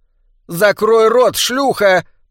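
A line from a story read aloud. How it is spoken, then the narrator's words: Shouted. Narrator (Russian): прокричала Маргарет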